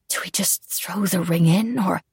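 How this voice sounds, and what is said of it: Whispered line. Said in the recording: “my whisper”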